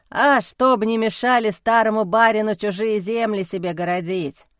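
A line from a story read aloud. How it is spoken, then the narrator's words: Amused snort. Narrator (Russian): хмыкнул Демьян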